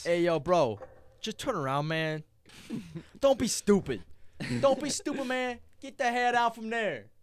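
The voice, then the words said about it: Put-on New York accent. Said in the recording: “Complete New York accent.”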